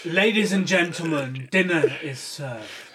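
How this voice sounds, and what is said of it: Put-on English accent. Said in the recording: “this English voice ... I can't do an accent. I'll just butcher it.”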